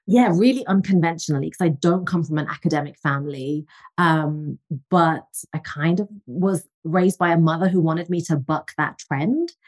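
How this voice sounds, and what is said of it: English accent. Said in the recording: “I'm originally from England, as you can tell from the accent.”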